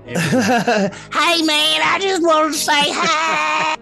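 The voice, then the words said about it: Put-on creature character voice. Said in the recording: “my impression of the Jersey Devil”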